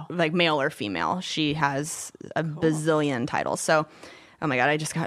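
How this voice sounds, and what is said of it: Out of breath, panting speech. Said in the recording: “I worked myself out of breath with that.”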